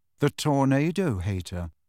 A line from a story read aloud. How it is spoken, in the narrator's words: said rather coolly